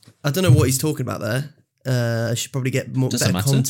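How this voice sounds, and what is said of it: Usual voice. Nothing is said of it.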